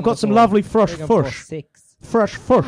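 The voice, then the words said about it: Put-on New Zealand accent. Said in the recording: “That's New Zealand. Sorry. They say fush.”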